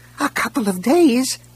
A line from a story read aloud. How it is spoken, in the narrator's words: a voice squeaked